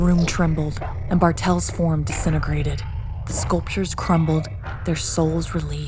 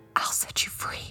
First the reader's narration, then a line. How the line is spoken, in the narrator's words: I whispered